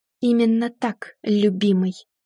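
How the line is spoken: Hateful speech through teeth. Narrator (Russian): я процедила с особенной ненавистью

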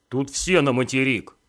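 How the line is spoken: Stern demand. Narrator (Russian): один из корешков строго потребовал

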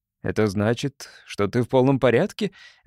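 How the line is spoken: Laughing. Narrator (Russian): рассмеялся Пол

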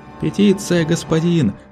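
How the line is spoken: Group shouting. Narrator (Russian): кричали первые

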